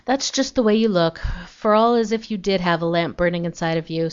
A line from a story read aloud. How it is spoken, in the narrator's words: sighed Aunt Jane